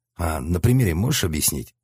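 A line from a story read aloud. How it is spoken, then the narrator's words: Plain. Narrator (Russian): спросил я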